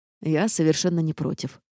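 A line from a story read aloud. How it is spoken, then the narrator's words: Amused snort. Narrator (Russian): хмыкнул герцог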